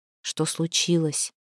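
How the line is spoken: Quiet question. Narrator (Russian): тихо спросила его Настя

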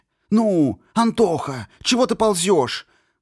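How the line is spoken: Loud hissing whisper. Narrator (Russian): Громко, но почему-то шепотом прошипел он

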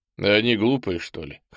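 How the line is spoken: Short laugh. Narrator (Russian): хохотнул Ул-Эсм

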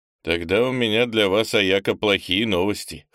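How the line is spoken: Wry snort. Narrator (Russian): хмыкнул я

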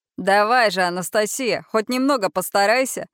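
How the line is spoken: Giggling, teasing. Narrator (Russian): хихикает Аарон

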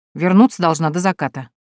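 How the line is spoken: Muttering. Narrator (Russian): буркнула она

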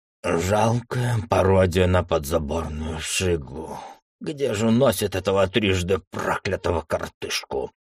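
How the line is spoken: Pained, through clenched teeth. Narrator (Russian): Сквозь сжатые от боли зубы процедил Георгий

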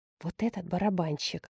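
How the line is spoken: Whisper. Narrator (Russian): шепнула Дулма Жанне

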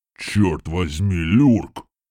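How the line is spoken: Booming rumble. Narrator (Russian): Прогудел Гром

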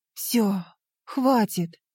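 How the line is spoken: Exhausted exhale. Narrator (Russian): выдохнула я, и в этом выдохе растворились последние силы

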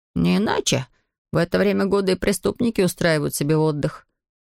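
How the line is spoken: Young detective's snort. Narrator (Russian): хмыкнул юный детектив

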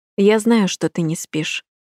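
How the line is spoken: Plain. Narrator (Russian): сказал Люкас

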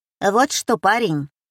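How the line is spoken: Businesslike tone. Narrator (Russian): с деловым тоном начала торговка

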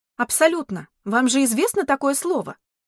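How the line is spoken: Almost shouting. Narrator (Russian): Почти заорала я в ответ

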